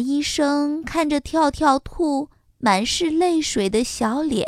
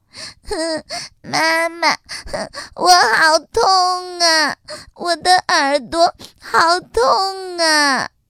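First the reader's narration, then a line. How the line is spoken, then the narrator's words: Crying. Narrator (Chinese): 可怜的跳跳兔哭起来了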